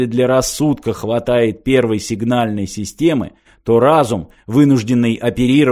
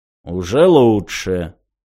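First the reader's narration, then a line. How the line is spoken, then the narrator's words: Soft. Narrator (Russian): мягко сказала амеба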